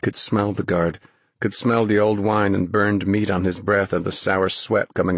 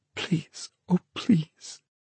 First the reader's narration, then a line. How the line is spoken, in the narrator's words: Dennis's frozen mind whispered